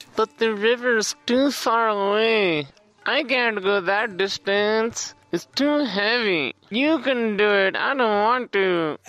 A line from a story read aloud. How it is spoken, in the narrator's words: they whined